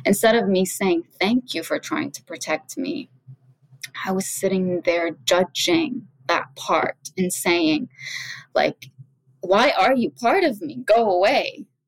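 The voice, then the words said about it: Emotional, choked-up speech. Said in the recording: “I'm getting emotional as I'm talking about this.”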